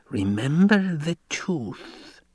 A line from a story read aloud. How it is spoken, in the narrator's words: Yui hissed